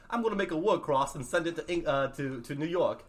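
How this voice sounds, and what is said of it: Put-on English accent. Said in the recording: “English accent.”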